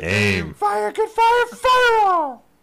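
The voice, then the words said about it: Puppet character voice. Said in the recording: “You are the father of Puppet George... It's hard to do the voice and drink whiskey.”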